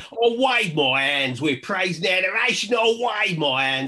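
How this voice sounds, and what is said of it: Sung in a London accent. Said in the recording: “it's because you didn't have a London accent. You've got to sing it.”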